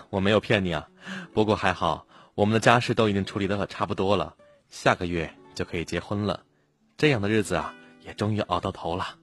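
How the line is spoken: Smiling. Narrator (Chinese): 女孩笑了笑说

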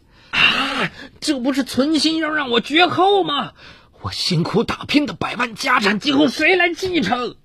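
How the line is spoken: Anguished cry. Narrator (Chinese): 他痛苦的呐喊

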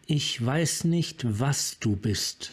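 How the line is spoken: Plain. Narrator (German): sagte Yasova

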